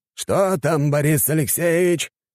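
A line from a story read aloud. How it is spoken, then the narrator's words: Shouted. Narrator (Russian): крикнул ему Орлов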